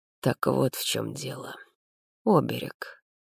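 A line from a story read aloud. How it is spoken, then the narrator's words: Quiet. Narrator (Russian): тихо произнес Мартин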